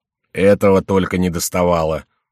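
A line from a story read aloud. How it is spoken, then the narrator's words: Displeased grumble. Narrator (Russian): недовольно проворчал Добинье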